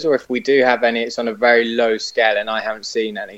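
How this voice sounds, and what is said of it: British accent. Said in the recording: “as we can tell from your accent, you're obviously not from the United States ... the UK”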